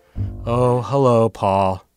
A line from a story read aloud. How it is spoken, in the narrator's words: she said in her Eeyore voice